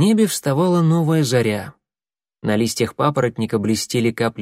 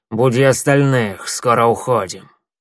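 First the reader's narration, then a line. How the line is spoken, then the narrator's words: Growling. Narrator (Russian): прорычал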